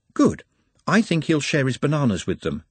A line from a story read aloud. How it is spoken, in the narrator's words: said Nutt